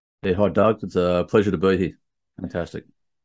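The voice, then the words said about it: Australian accent. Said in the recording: “You might detect a slightly different accent, at least in contrast of his versus mine ... I'm calling in from Sydney in Australia”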